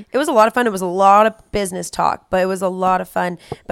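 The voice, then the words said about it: Hoarse, strained voice. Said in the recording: “That's why my voice is gone.”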